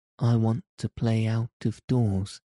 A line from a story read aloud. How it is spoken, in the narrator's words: Mary answered, hoping that her voice did not tremble